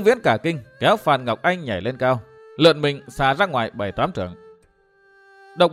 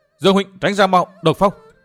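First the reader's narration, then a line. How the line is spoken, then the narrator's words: Loud urgent shout. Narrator (Vietnamese): Phan Ngọc Anh hét to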